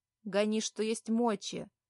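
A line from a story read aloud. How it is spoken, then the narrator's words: Demanding, peremptory. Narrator (Russian): требовательным и безапелляционным тоном обращаюсь к водиле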